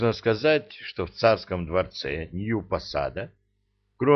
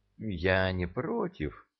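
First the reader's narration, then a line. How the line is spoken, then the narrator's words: Uncertain drawl. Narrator (Russian): неуверенно протянула царица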